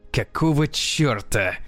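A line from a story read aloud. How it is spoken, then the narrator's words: Angry question. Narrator (Russian): сердито спросил Дэнни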